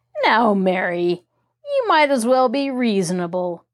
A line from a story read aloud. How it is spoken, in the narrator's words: say in a wheedling tone